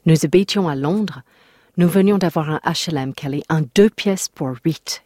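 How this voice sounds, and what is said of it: Put-on accent imitating her mother. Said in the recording (French): “Sa mère avait répondu ceci, avec son accent donc.”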